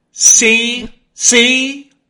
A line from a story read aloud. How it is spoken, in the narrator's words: he cried